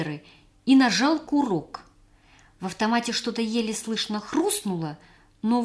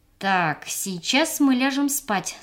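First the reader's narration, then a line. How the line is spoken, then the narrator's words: Plain. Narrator (Russian): сказал Сабир Ками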